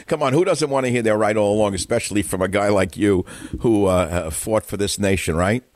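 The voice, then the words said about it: Brooklyn-like New York accent. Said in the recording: “the Irish in the city... It's called a South Market accent. You talk like you're from Brooklyn... a New York accent”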